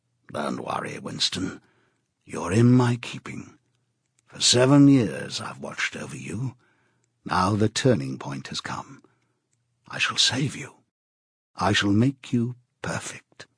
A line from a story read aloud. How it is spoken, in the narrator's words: A voice murmured in his ear